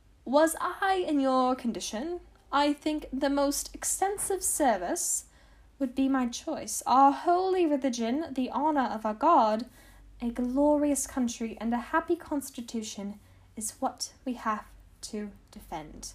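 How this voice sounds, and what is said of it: Put-on British accent. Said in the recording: “they would all have British accents, so that is why that was rubber the British accent, or the best I could do”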